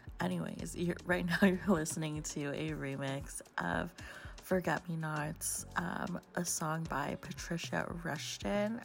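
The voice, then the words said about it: Hoarse, slightly sick-sounding voice. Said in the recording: “my talk breaks sound like I'm like sick or like ill ... my voice is just like always hoarse”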